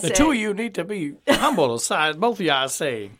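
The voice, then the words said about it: Foghorn Leghorn impression. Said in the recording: “do a Foghorn Leghorn impersonation”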